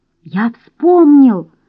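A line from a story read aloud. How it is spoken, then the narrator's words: Exclaimed. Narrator (Russian): воскликнул Нед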